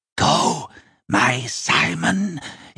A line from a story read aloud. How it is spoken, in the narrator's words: breathed, and he was voiced in flame